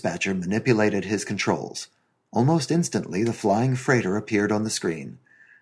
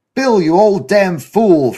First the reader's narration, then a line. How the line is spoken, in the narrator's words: Frank Kenna's voice boomed